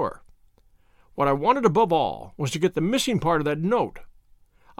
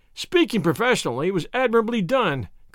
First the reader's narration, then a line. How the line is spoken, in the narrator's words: cried I, looking in amazement at this man